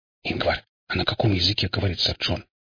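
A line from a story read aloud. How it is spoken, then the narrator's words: Quiet question. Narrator (Russian): тихо спросил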